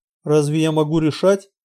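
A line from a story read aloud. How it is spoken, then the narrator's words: Gloomy. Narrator (Russian): мрачно ответил Эрик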